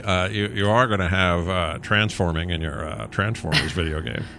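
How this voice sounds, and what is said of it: Bad imitation of another person's voice. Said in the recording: “bad Jeff Goldblum impression becomes the Joker very quickly”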